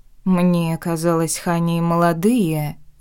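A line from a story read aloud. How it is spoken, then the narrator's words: Thoughtful drawl. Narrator (Russian): задумчиво протянула я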